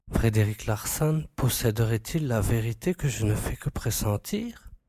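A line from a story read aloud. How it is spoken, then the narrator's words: Murmur. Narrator (French): murmura-t-il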